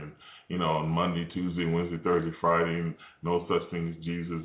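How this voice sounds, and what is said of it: Sarcastic tone. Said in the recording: “I know I'm being sarcastic”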